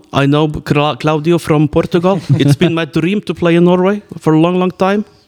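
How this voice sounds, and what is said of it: Put-on Scottish accent in English. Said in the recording (Norwegian): “Hvorfor sånn skotsk aksent der”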